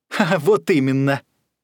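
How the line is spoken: Laughing reply. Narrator (Russian): засмеялся в ответ Шустрый

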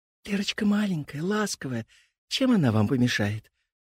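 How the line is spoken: Whispering. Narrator (Russian): прошептала Аня

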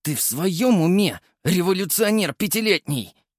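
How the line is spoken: Hissed. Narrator (Russian): прошипел Прохоров

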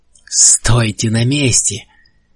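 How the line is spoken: High, shrill voice. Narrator (Russian): сказал сенатор высоким, почти визгливым голосом

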